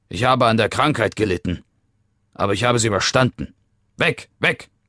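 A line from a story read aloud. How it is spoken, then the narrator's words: Barking. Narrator (German): bellte er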